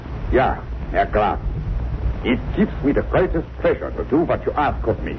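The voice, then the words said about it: Convincing put-on German accent. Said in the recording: “And my accent, you find it reasonably convincing? ... Oh, sure, extremely so.”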